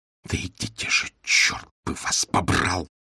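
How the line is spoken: Furious hiss. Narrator (Russian): яростно прошипела Мари

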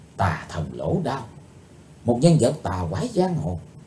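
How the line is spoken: Soft whisper. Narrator (Vietnamese): Chí Tôn khẽ nói thầm

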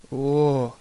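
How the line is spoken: Moaning. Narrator (Russian): простонал Гроувер

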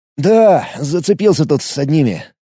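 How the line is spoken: Uncertain. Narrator (Russian): неуверенно произнес

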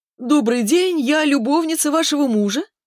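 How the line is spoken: Thin squeaky imitated voice. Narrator (Russian): тоненько пропищал Субботкин, имитируя голос Ефременко

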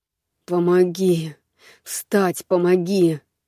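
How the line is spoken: Through gritted teeth. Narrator (Russian): процедил Алекс, пытаясь подняться

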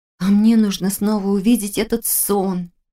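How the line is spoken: Moaning. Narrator (Russian): простонала Таня

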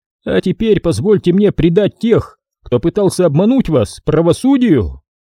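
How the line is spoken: Exclaiming. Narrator (Russian): Воскликнул Ксанатос

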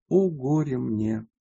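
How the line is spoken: Tearful, sighing lament. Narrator (Russian): припомнив первые дни своего воздержания, она вздохнула, прослезилась и сказала

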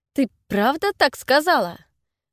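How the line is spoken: Snorting reply. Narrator (Russian): Она фыркнула в ответ

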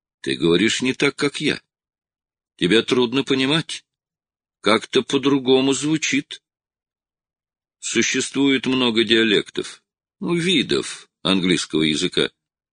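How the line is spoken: Calm reply. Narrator (Russian): спокойно ответил Струан

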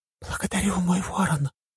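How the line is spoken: Whisper. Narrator (Russian): прошептала Равена

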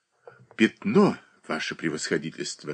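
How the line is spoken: Whisper. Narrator (Russian): шептал молодой человек

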